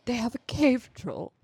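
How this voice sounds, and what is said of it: Imitates a film character's voice. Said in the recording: “my Boromir impression. ... That was really good.”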